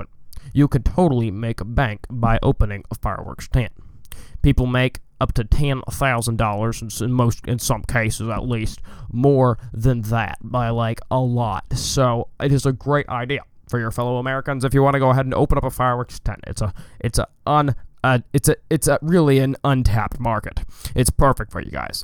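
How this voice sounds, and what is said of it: Imitates another person's voice, poorly. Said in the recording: “my Barack Obama impression ... I'm terrible at accents.”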